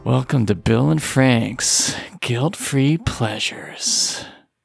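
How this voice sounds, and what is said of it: Sultry, seductive phone-sex-operator voice. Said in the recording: “talking like a phone sex operator”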